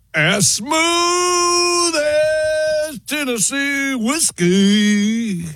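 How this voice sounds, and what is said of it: Sings with a put-on accent. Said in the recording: “that's the accent.”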